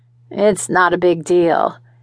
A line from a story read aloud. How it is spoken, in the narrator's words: grunted